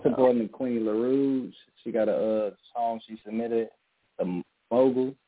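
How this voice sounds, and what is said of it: Strong accent. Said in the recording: “The accent is a little strong.”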